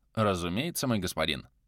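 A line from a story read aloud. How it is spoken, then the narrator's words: Melancholy mutter. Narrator (Russian): меланхолично … пробормотал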